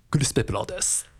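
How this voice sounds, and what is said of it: Imitates another person's voice. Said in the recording (Japanese): “クリス・ペプラーさんの声真似を上手くなるように日々練習してます ... お、似てますね。 ... 似てる似てないで言ったら似てますね。”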